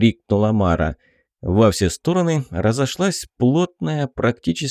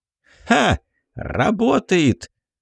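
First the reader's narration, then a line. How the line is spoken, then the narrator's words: Joyful exclamation. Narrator (Russian): радостно воскликнула она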